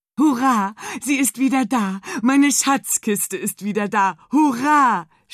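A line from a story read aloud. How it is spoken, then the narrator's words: Pirate shouting joyfully. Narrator (German): schrie der Pirat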